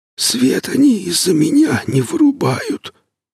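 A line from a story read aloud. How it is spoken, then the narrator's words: Hoarse, breathless whisper. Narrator (Russian): Снизу донесся сиплый, задыхающийся шепот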